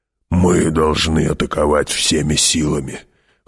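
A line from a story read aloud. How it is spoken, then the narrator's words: Hoarse. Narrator (Russian): хрипло сказал барон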